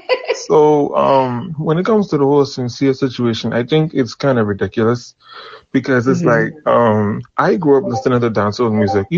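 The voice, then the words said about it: Caribbean accent. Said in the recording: “I'm from the Caribbean. ... I hear the accent.”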